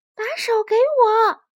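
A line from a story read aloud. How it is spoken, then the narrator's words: Loud shout. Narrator (Chinese): 小刺猬大声喊道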